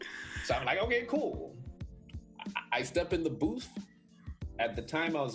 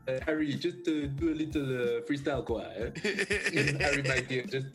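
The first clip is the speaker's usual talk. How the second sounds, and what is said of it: Put-on French accent. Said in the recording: “in his French accent”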